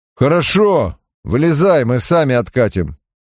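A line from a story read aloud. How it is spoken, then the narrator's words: Grumbling. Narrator (Russian): проворчал Роуклифф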